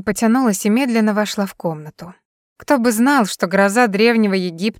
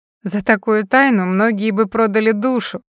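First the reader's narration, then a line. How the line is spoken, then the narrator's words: Laughing. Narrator (Russian): Кэрри рассмеялась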